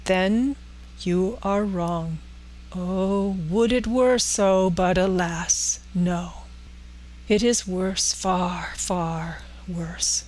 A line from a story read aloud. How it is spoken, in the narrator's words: said solemnly